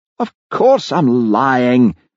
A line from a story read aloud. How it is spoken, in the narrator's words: howled Jimmy